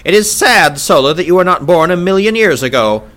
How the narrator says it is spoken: snapped Sarkoja

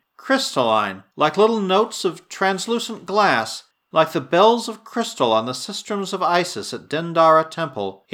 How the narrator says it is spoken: he added half dreamily

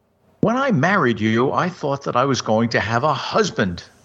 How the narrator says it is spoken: exclaimed Amy Hunting

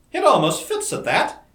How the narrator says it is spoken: exclaimed Dorothy, laughing

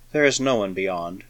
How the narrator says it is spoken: The Callistan murmured, with faint amusement

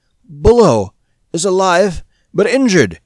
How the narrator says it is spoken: gasped

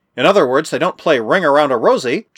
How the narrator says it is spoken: chuckled Jack

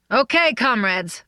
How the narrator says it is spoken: called out

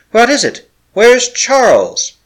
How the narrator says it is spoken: she cried

